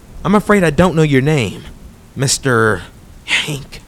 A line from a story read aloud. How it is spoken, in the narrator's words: he breathed